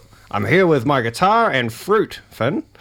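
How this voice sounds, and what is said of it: Imitates another person's voice. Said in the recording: “my Josh impression.”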